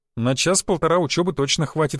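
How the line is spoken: Laughing. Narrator (Russian): хохотнул я

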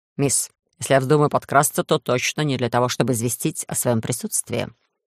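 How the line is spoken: Dry, sylph. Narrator (Russian): сухо произнес сильф

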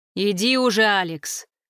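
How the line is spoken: Growl. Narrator (Russian): рыкнул Руслан

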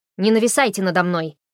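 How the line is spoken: Barked. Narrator (Russian): рявкнула она

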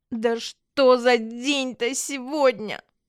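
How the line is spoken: Moaned. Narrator (Russian): простонала Ди

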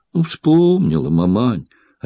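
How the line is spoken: Sighing. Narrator (Russian): опять вздохнула Ефросиня

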